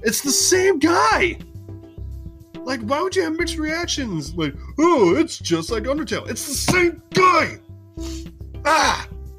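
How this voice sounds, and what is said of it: Angry screaming. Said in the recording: “Why are you screaming? ... I'm angry about this!”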